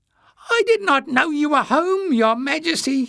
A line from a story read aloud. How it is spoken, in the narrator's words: he spluttered